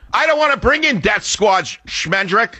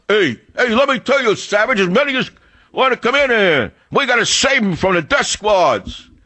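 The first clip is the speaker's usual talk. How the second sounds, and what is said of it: Mock working-class man's accent. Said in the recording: “mimicking the accent of the working class man ... classic effete snob from Harvard University pretending to be a man of the people”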